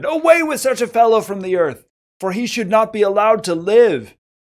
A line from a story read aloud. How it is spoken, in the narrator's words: they shouted